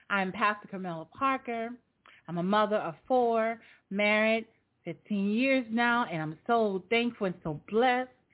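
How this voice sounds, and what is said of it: Slight New Orleans accent. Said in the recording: “a little accent in my voice, I'm from New Orleans”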